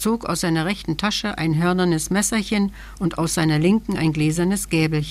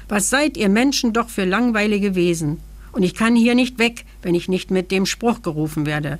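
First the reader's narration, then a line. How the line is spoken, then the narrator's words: Little man growling. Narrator (German): knurrte das Männchen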